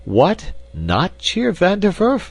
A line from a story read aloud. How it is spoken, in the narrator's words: cried Ben indignantly